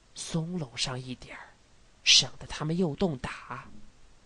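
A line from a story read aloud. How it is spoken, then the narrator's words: Low voice. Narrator (Chinese): 白巡长低声地说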